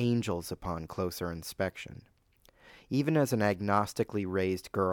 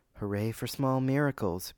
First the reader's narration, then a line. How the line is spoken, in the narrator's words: Muriel remarked aloud, giving herself the tiniest of chuckles